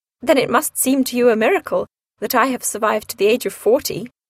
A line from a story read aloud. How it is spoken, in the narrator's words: laughed, her mother